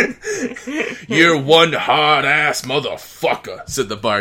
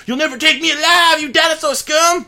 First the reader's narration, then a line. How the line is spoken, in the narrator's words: Brendan yelled